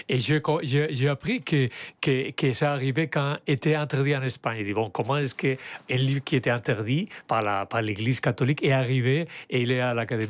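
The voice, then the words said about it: Very strong accent, clearly understandable. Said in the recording (French): “Tout le monde est sous le charme de l'accent. ... il a un accent très marqué et en même temps, on le comprend parfaitement bien”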